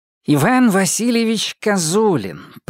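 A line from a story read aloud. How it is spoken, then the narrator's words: Nasal. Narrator (Russian): прогнусавил он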